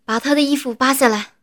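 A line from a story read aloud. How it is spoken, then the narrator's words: Loud shout. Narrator (Chinese): 赵仰天大喊一声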